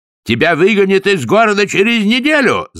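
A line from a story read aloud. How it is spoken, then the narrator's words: Yelling. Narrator (Russian): завопил Растлен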